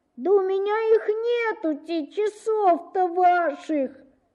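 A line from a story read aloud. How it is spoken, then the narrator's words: Boy answering angrily, tearfully. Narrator (Russian): отвечал мальчик сердитым и плаксивым голосом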